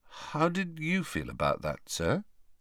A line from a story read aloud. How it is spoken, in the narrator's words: asked Harry hesitantly